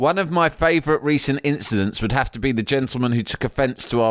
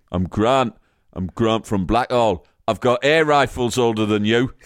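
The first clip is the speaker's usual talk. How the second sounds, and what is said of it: Put-on Sunderland accent. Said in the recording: “let me get my Sunderland accent.”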